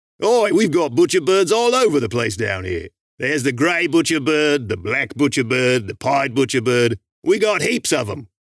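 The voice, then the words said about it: Put-on Australian accent. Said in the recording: “Mr. Australian man with an incredibly authentic accent”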